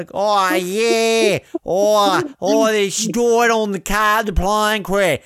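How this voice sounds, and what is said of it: Mocking exaggerated fake Australian accent. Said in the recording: “hear her accent and think that's how Australians sound ... Like, how do I think we speak?”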